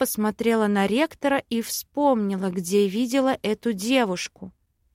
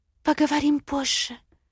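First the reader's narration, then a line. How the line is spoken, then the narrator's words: Whisper. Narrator (Russian): шепнула блондинка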